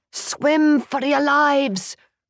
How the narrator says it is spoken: Reed yelled

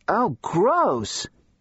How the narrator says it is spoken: Katie cried

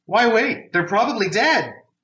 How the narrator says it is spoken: Maria shouted back

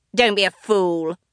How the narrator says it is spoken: the Dionysus snapped at him

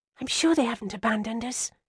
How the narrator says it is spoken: I whispered

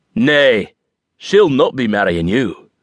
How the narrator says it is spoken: Drew bellowed

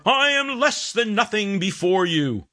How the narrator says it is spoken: The equally pompous cantor shouting even louder

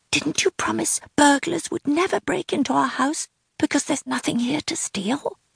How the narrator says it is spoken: whispered Maggie

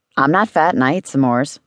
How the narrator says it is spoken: said

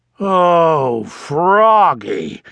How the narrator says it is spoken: groaned Dad

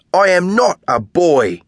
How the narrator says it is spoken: Edwina says furiously

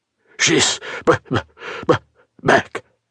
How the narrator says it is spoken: breathlessly managed to get out

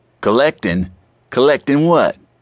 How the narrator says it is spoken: the salt-and-pepper bearded man asked

